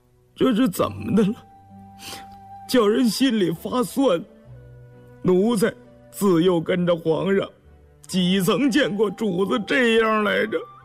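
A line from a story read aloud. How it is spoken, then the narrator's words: Choked, emotional voice. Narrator (Chinese): 动了情，眼圈一红，哽咽着嗓子说道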